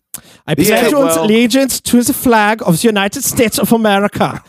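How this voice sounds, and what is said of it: Put-on German accent. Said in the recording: “If you say it with a German accent, it sounds way more fucking suspect”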